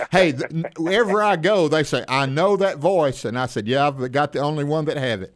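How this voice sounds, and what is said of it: Oklahoma accent. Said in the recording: “you of all people can say Oklahoma like no one else on the radio ... I feel right at home with that accent.”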